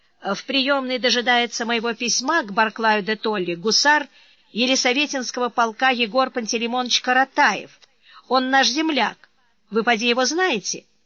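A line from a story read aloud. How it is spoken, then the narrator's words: Very loud, cheerful, confident man. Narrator (Russian): высоченный здоровяк, чрезвычайно веселый и самоуверенный, говоривший исключительно громко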